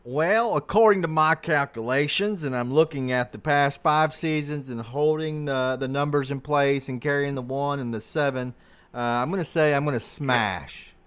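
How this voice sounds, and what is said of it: Put-on NASCAR-fan country accent. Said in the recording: “I'm not sure what that accent was ... sounded like he just came from the nearest NASCAR event”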